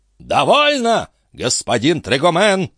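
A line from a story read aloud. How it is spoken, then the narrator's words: Menacing shout. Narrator (Russian): грозно закричал дядюшка Антифер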